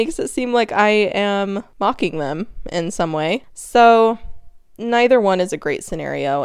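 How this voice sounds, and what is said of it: Usual voice. Nothing is said of it.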